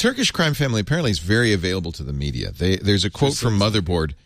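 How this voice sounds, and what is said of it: Usual voice. Nothing is said of it.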